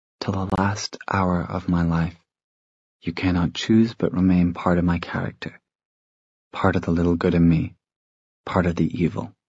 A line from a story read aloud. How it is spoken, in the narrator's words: Tessa said softly